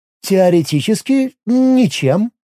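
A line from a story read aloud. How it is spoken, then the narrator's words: Uncertain. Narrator (Russian): неуверенно произнесла Миром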